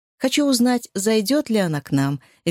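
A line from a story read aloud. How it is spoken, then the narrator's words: Cheerful. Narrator (Russian): весело ответила Рия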